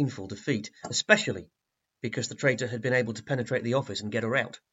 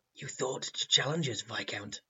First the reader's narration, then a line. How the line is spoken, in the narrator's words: he muttered to himself